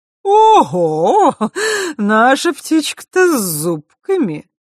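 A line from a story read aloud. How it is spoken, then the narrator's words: Sudden laugh. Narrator (Russian): вдруг рассмеялась Хранимара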